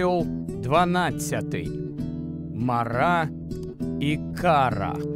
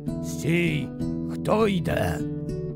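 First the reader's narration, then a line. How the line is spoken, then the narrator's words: Hoarse creaking voices with colds. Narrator (Ukrainian): вони хрипло застудженими голосами прорипіли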